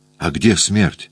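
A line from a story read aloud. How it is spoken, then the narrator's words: Plain. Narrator (Russian): спросил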